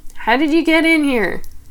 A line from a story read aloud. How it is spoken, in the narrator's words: yelled over the music